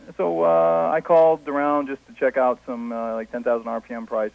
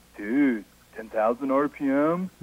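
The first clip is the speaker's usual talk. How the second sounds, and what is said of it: Impression of a computer store kid. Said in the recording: “impersonation of a computer kid at one of the big majors”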